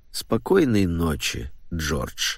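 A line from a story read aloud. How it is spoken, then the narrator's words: Infinitely weary old man. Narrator (Russian): повторил старик бесконечно усталым голосом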